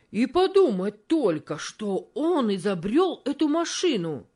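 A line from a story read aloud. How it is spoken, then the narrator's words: Rash exclamation. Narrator (Russian): необдуманно воскликнул один из рабочих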